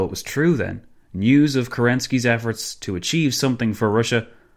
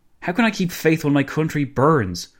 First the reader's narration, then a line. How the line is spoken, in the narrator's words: Kerensky blurted out